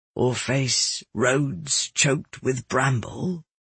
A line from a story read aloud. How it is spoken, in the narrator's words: my father added softly